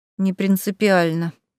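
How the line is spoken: Mournful, dejected sigh. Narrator (Russian): скорбно вздохнула, окончательно придя в уныние

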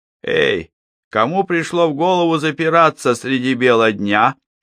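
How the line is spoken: Cheerful shout. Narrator (Russian): весело крикнул он

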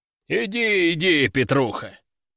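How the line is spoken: Deep voice, wry smirk. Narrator (Russian): пробасил Захар с кривой усмешкой

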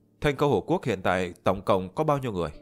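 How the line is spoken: Plain question. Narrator (Vietnamese): Liễu Tuyết hỏi

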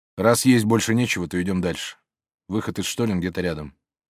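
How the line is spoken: Cold curt remark. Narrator (Russian): холодно бросив

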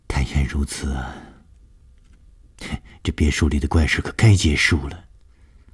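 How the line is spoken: Sighing. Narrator (Chinese): 舒子音叹了一口气说

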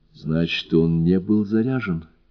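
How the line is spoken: Quiet. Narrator (Russian): тихо сказала

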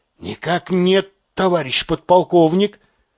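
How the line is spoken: Forced out with difficulty. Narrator (Russian): кое-как выдавил Касаев

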